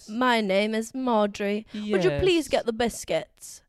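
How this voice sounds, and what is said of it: Put-on posh British accent. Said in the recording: “my British accent is ... It's always Cockney. ... like the queen ... No, that is a bit ... It went south.”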